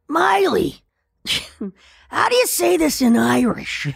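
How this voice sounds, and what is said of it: Raspy imitation of another person's voice. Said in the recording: “we both have the rasp ... my Pam Adlon impersonation ... That's actually pretty great”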